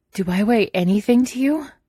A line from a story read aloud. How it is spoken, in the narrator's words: He asks somewhat breathlessly